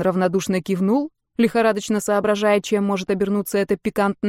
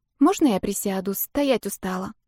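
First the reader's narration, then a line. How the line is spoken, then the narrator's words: Timid. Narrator (Russian): Робко сказала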